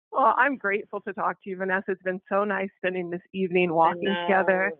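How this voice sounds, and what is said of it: Flat, subdued monotone delivery. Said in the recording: “Could you calm down? ... More monotone?”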